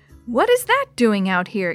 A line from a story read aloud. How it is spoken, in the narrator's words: exclaimed Maria